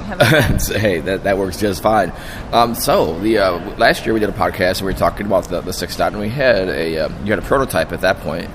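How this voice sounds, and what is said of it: Hoarse, strained voice. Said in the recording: “I'm almost losing my voice,”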